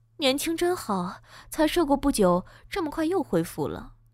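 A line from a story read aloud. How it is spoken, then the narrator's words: Admiring sigh. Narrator (Chinese): 岳母感叹道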